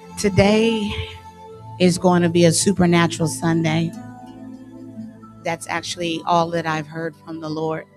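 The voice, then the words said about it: Slightly raspy voice. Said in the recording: “My voice is a bit raspy, a little bit”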